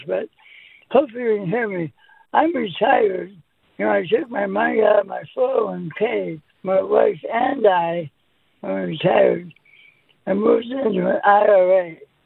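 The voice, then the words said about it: Rough, damaged-sounding voice. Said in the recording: “my voice is bad because I had some throat problems”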